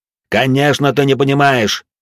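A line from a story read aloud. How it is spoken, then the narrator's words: Angry yelling. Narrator (Russian): заорал на него Вивьен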